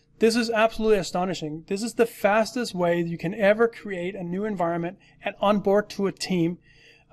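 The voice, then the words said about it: Excited, energetic speaking voice. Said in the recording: “I'm very excited for this, as you can hear in my voice.”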